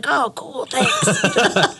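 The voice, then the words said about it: Imitates another person's voice. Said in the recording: “That's a pretty good impression.”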